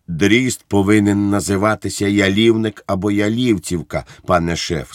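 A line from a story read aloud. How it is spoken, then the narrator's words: Plain. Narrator (Ukrainian): сказав я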